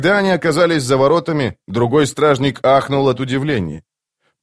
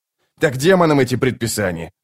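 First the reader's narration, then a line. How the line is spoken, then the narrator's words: Snapped. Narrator (Russian): огрызнулся его товарищ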